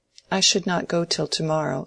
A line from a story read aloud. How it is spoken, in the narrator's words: said Rosamond